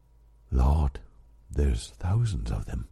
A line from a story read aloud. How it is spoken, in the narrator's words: whispered